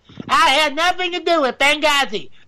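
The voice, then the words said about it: Weak Hillary Clinton impression. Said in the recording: “Oop, wrong accent. I can't do Hillary Clinton.”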